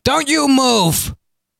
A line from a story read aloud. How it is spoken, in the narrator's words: yelled